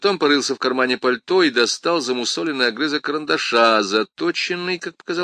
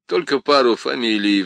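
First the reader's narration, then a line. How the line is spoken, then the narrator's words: Sighing. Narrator (Russian): вздохнул он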